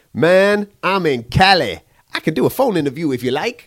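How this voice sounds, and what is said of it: Put-on accent imitating Mo. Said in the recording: “I don't know if Mo speaks like that, but I just thought I'd do that accent”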